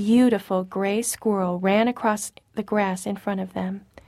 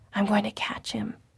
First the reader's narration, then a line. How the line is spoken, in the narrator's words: whispered Joel excitedly